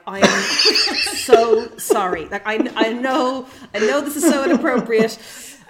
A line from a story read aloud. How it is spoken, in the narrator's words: laughed in her face and had to just be like